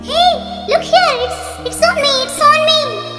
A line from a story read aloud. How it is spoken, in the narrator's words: She screamed